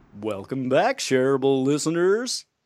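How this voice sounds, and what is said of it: Goofy Barney-like cartoon voice. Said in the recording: “That was a weird voice. ... Goofy or a clown? ... It was kind of like a little bit Barney-esque.”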